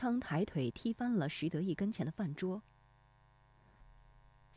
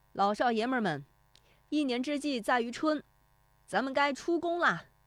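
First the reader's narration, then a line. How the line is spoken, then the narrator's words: Shouting. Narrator (Chinese): 喊声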